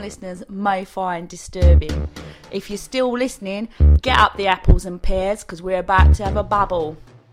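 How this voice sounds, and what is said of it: Put-on London accent. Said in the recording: “one of them is from London. I assume that's why Lucy forced me to do that voice.”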